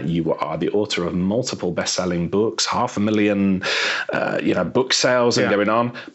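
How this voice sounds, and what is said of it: British accent. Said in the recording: “It's actually beautiful with the British accent.”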